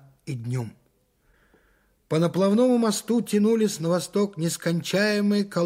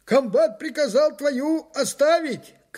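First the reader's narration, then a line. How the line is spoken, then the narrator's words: Hoarse shout on the move. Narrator (Russian): крикнул мне на ходу осипший, как всегда, старшина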